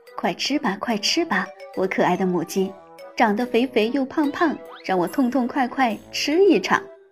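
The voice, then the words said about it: Whispered, muttered chant. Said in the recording (Chinese): “他小声地念叨着”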